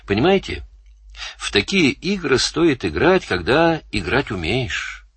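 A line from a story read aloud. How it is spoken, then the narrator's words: Soft gentle voice. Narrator (Russian): сказал Данил мягко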